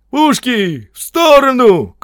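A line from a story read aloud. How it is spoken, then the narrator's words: Shout from behind. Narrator (Russian): крикнул кто-то позади 74-го батальона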